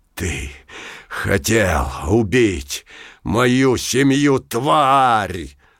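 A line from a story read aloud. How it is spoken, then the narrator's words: Loud roar across square. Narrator (Russian): На всю площадь рычал Пушок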